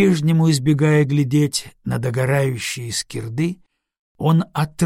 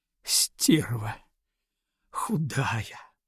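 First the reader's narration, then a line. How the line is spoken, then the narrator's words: Dejected sobbing whisper. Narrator (Russian): Подавленный всем этим, то и дело всхлипывающе шептал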